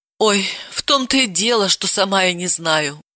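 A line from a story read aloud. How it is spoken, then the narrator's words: Sighing. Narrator (Russian): вздохнула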